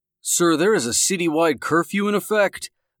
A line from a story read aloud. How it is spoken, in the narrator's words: the voice boomed over the loudspeaker